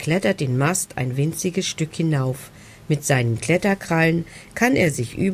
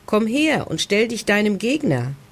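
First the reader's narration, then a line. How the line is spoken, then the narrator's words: Called out. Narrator (German): ruft Beppo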